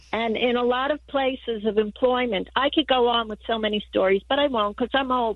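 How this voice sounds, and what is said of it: New York accent. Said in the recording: “calling from New York ... accent.”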